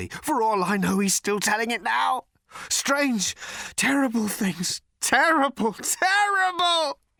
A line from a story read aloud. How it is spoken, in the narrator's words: he screamed